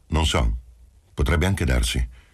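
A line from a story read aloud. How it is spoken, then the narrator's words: Curt reply. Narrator (Italian): Rispose seccamente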